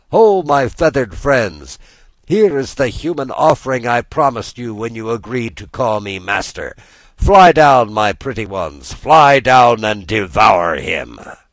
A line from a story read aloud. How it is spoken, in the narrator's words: the magician cried out to the gulls